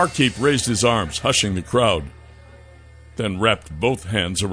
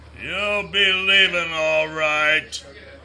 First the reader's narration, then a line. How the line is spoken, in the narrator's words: growled